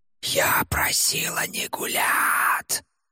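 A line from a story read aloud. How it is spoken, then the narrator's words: Hissing woman. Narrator (Russian): зашипела она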